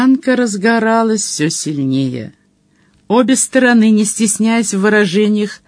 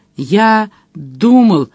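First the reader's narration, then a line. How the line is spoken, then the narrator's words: Strained, forced out. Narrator (Russian): выдавил Джон Том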